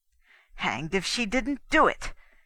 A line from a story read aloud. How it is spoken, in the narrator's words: he blurted out angrily